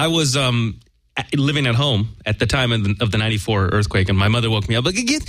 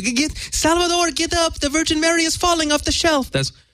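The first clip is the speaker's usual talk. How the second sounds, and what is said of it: Put-on accent imitating mother. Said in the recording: “I gave my mother an accent, and she has no accent ... a horrible impression of your mother”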